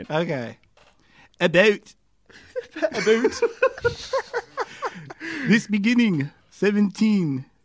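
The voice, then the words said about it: Weak attempt at Canadian accent. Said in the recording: “Read the next paragraph of that in your Canadian accent. ... That sounds more Lithuanian than anything. ... No, that sounded British.”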